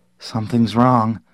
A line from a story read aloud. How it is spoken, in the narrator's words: Barton said shakily